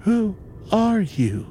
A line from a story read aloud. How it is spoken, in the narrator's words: Jennifer asked, quavering barely above a whisper